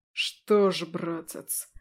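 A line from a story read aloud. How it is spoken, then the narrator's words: Angrily spat out. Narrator (Russian): зло выплюнул Дариан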